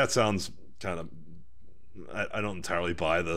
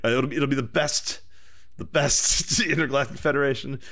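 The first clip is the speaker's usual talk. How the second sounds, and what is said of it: Imitates another person's voice. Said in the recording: “I wish I could do a good Trump impersonation.”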